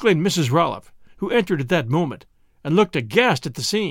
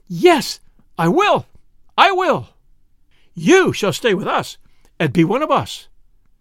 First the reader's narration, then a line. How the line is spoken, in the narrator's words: exclaiming